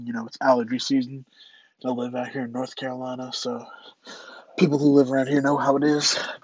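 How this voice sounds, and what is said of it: Congested, stuffy voice. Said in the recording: “Sorry if I sound a little congested.”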